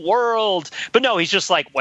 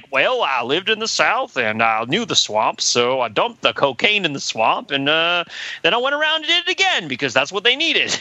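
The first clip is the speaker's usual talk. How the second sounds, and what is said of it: Slow put-on Southern drawl. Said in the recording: “what you were just doing there, which is the Southern drawl ... the slowed down Southern accent”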